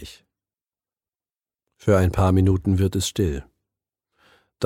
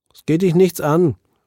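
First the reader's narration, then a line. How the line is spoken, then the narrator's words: Calling back. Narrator (German): ruft Herbie zurück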